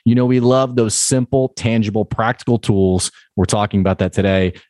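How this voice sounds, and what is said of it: Polished radio announcer voice. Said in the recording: “You have a real knack for radio voice or podcast voice.”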